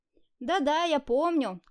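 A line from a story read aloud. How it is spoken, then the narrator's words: Short laugh. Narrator (Russian): хохотнул Тимур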